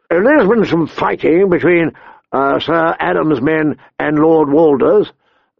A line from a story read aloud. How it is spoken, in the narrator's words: Theon answered